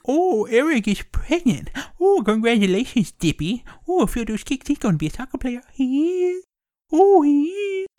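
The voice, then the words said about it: Adam Sandler impression. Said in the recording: “my Adam Sandler impression ... So that's my Adam Sandler impression.”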